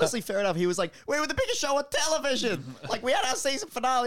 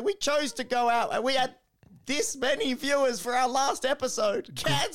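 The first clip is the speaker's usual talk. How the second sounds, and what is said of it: Imitates another person's voice. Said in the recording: “That was a pretty good Seinfeld impression.”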